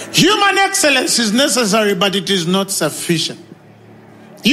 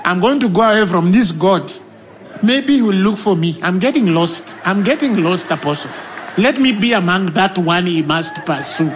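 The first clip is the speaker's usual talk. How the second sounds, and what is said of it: Kenyan accent. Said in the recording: “in a Kenyan accent”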